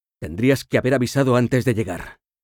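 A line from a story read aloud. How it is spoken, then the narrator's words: Snapped bluntly. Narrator (Spanish): le espetó sin más preámbulos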